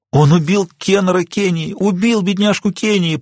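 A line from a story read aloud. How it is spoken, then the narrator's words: Wailing, sobbing old woman. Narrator (Russian): причитала бабуля, не сдерживая рыданий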